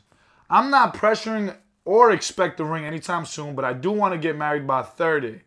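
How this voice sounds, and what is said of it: Put-on Texan accent. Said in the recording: “I'm picking up an accent here... she's from like Texas”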